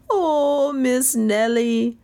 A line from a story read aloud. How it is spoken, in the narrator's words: she exploded in a graveyard moan